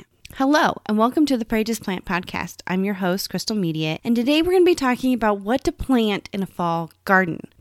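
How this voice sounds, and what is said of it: Slightly strained voice. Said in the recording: “my voice is a little stressed. I don't know if you can hear it. I'm still healing from that cold from last week.”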